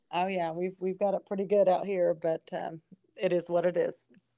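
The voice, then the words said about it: Deep, sick-sounding voice. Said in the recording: “forgive my deep voice because I'm getting over a little sickness”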